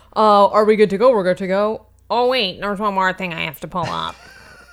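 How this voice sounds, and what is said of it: Imitates another person's voice. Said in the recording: “this is my impression of you”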